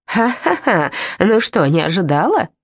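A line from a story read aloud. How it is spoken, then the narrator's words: Guffawing laughter. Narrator (Russian): захохотала горилла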